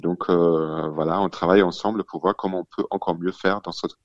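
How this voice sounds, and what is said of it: German accent speaking French. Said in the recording (French): “on entend euh, votre accent allemand”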